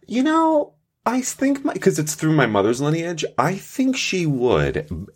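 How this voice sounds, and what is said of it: Italian-sounding accent. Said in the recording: “you come off pretty goddamn Italian to me right now ... It's my accent, I think. It's got to be the accent.”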